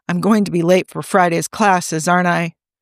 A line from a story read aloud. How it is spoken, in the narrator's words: James chuckled